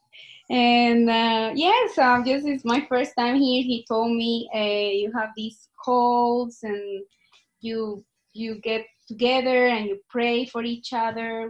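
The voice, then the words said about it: Colombian accent. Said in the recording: “my accent. I'm just Colombian”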